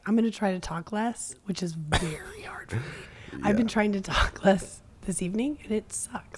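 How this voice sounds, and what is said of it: Strained, struggling sick voice. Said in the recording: “my voice is struggling ... please don't judge for this voice ... you were sick yesterday and then it got a little worse”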